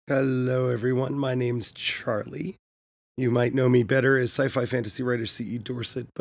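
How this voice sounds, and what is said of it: Sick, unwell-sounding voice. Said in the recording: “sorry for my voice... Got sick... I was really hoping that by the time I would start recording these voices, this podcast, my voice would be better, but as you can tell, it's not”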